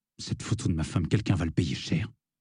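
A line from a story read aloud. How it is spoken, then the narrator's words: Hoarse murmur. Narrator (French): dit-il dans un murmure rauque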